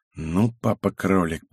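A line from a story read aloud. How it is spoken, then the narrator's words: Quiet mumble. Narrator (Russian): пробормотал я тихо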